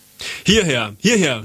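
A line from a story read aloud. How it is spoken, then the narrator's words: Stranger calling over. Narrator (German): rief uns der Fremde zu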